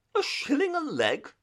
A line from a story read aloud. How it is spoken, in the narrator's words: cried Toad